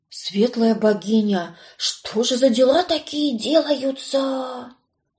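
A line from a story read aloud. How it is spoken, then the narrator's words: Frightened servants whispering. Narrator (Russian): Испуганно шептали лакеи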